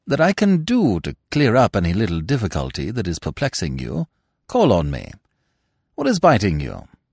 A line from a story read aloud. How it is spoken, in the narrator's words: said Smith kindly